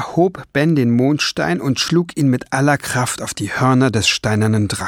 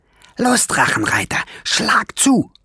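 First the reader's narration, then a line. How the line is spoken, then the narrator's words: Hissing. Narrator (German): zischte Schwefelfell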